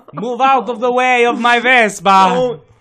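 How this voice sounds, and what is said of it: Put-on Italian accent. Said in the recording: “don't racially profile Italians ... I'm doing the accent.”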